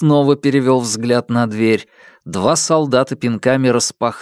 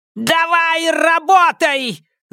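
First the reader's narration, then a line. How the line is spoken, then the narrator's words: Screaming. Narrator (Russian): завопила вдова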